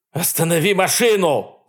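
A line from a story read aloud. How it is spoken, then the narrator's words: Man shouting. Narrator (Russian): закричал мужчина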